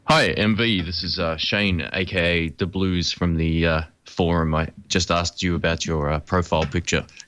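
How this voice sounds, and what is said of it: Deep, low radio voice. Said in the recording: “You got such a wonderful radio voice ... I'm actually still getting over a cold, so maybe that's part of the effect ... Your voice will drop a few octaves.”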